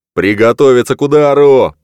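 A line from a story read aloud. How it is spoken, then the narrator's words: Roar. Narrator (Russian): проревел он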